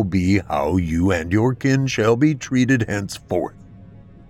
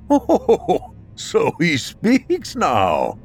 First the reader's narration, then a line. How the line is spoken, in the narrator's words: he exclaimed